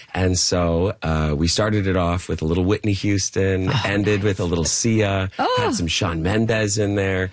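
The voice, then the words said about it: Hoarse, gravelly voice. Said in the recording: “I am a little bit hoarse this morning ... We like the gravel. We like the gravelly.”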